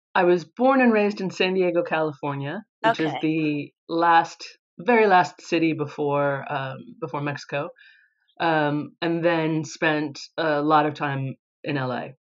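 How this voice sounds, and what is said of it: American accent. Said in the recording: “you have an accent ... You're obviously American”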